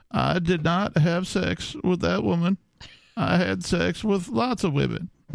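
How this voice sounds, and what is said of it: Imitates another person's voice. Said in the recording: “a slightly better impression of Bill Clinton... I've been working on it a little bit... I don't usually do presidential impressions, and when I do them poorly”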